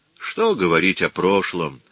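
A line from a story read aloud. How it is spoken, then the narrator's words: Wearily dismissive. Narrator (Russian): устало отмахнулся Микеланджело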